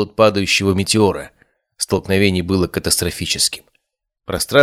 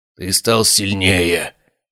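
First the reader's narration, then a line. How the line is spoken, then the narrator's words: Hoarse rasp. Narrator (Russian): прохрипел Бартоломео, уклоняясь от очередной серии ударов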